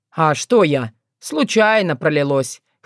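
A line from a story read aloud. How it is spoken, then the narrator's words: Snorting. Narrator (Russian): хмыкнул он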